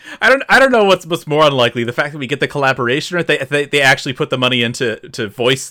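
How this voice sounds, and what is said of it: Usual voice. Nothing is said of it.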